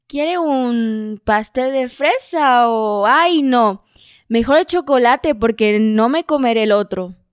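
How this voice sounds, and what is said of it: Convincing put-on Spanish accent. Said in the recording (Spanish): “A ti te salió excelente. Es, Muy bueno. ... eso se escuchó como un acento real”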